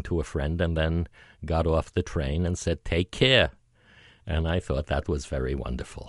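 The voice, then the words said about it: Deliberate New York accent. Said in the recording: “I'm trying to sound like a New Yorker while I'm talking to you. ... I am consciously trying to use my old New York accent”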